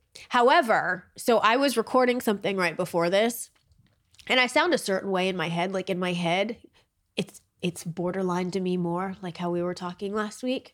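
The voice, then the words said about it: Slightly nasal voice. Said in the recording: “Right now, I sound a little bit like Nicole from Big Brother... Yeah, you do... Just a little nasally... You do sound like that though.”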